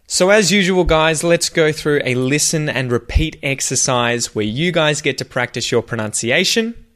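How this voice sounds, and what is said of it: Australian accent. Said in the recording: “your Australian pronunciation ... that Aussie accent”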